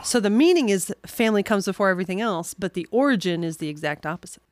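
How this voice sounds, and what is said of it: New York accent. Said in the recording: “as you hear my New York accent”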